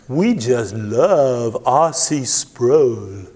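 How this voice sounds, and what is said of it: Thick Southern accent. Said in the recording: “in her thick southern accent”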